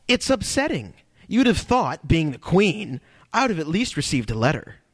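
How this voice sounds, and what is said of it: Impression of Natalie Portman. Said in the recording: “That's a good impression, by the way.”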